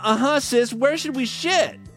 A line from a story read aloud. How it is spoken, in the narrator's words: Lisa whined